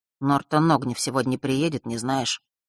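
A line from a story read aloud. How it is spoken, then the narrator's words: Sudden quiet question. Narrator (Russian): вдруг тихо спросил он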